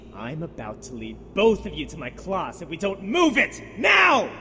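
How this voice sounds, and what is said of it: Yelling angrily. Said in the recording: “stop yelling”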